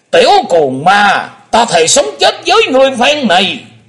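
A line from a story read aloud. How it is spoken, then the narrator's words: Furious, hateful shout. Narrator (Vietnamese): lão nhân lùn béo quất hận quát lên lòng lòng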